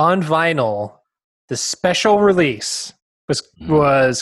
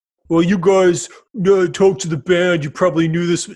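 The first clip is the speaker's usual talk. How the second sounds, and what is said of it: Imitates a listener's voice. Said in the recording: “Great impression of our listeners.”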